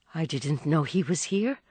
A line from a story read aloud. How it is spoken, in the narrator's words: Madame Olenska murmured